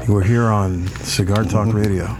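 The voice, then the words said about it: Deep sultry radio-announcer voice. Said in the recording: “radio voice ... Sultry voice.”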